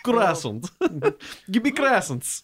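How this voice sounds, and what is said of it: Put-on Russian accent. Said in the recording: “With a Russian accent ... Yes, that's pretty good, yeah. That sounds right.”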